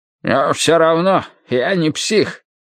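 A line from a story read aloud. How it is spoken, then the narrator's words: Grumbling. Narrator (Russian): буркнул Хупер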